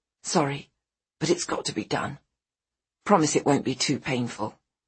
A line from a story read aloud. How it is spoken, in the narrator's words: Kate whispers